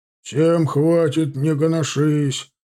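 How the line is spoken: Bass reply. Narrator (Russian): откликнулся басом Бабкин

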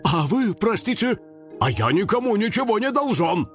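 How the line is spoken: Barking gardener. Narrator (Russian): рявкнул садовод

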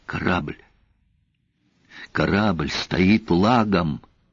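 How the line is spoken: Sniffling whisper. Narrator (Russian): Дикс хлюпнул носом и прошептал

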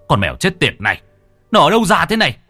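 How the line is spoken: Angry shout. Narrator (Vietnamese): Bác Phụng tức giận quát

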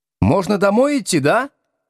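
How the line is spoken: Jubilant group shouting. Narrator (Russian): Ликуя орала зондеркоманда

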